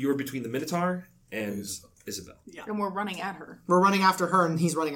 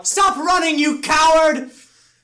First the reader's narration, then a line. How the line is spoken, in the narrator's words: I'm going to yell